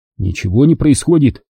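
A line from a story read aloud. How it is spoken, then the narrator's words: Angry reply. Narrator (Russian): сердито ответил я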